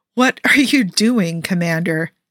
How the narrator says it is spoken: Jim asks, biting back with a laugh and a reprimand

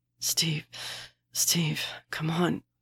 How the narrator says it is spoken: Bucky pants

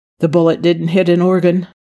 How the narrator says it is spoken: he said, his voice tight

